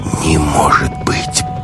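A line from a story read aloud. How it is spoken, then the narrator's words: Whispered. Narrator (Russian): прошептала Маруся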